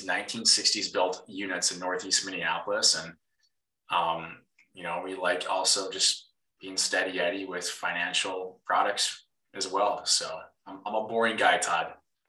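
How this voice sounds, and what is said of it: Minnesotan accent. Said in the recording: “you can probably hear the accent. I am a Minnesotan.”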